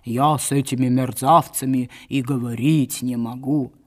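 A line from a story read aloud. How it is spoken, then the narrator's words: Dull barking voice. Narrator (Russian): А он только лаял глухо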